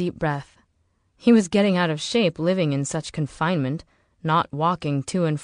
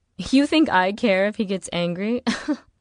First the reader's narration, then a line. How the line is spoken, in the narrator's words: Juliet laughed